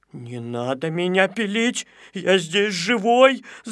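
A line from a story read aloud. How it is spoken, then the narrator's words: Whimpering. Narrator (Russian): захныкал Незнайка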